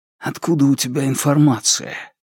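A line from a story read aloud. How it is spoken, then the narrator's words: Whisper. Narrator (Russian): Бьян Пинь прошептал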